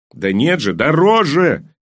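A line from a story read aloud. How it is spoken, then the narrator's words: Yelling. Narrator (Russian): завопил он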